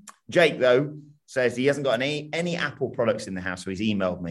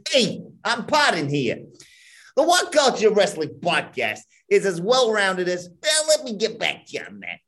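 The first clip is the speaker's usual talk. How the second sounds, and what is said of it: Put-on New York accent. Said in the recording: “New York accent, mildly appropriate, but optional”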